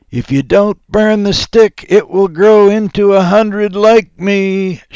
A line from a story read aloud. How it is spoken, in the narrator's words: shouted